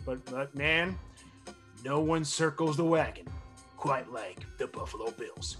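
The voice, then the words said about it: Imitates another person's voice. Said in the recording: “that's my Chris Berman impression.”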